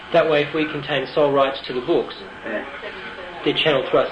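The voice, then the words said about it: Australian accent. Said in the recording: “you hear the Australian accent”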